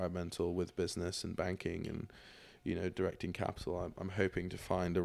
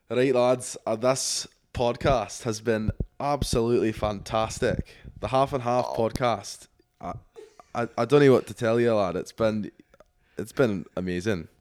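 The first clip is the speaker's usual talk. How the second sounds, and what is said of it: Put-on Scottish accent. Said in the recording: “describe how your experience on the pod has been, but in your Scottish accent ... Got to get the Scottish in here.”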